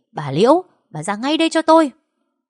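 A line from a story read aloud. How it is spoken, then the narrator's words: Loud yelling. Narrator (Vietnamese): mày gào lên ầm ĩ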